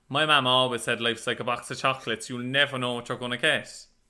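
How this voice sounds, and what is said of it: Cork accent. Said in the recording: “I'll do it in Cork.”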